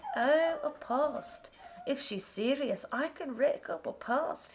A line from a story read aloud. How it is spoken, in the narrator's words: he said with a laugh